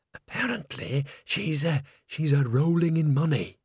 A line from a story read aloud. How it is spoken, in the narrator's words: whispered Bucket